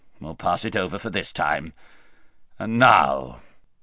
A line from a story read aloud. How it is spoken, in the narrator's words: grumbled the king